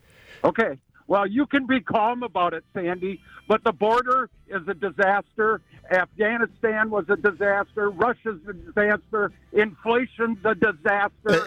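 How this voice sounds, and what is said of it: Angry-sounding, agitated delivery. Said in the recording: “you could be mistaken for angry ... You're doing a good imitation of angry”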